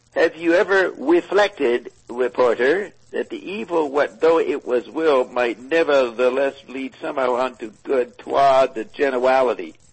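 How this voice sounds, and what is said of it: Elmer Fudd cartoon voice impression. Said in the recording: “it's written in the style of Elmer Fudd or one of those cartoon characters... Is that Elmer Fudd?... The W's... Yeah, that's Elmer Fudd.”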